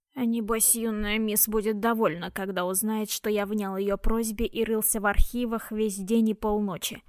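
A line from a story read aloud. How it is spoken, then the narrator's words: Grumbled. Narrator (Russian): проворчал Старквейзер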